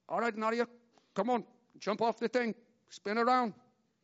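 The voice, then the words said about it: Put-on Czech accent. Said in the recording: “It's my best Czechoslovakian ... So that was a good Czech accent.”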